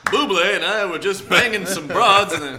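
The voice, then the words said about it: John Slattery impression. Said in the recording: “worst John Slattery impression. ... a great Slattery impression.”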